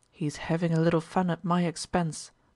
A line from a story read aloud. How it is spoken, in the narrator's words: said Ermolov softly